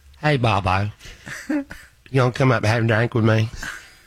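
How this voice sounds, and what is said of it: Imitates another person's voice. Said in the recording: “Can you tell impersonate her a little bit”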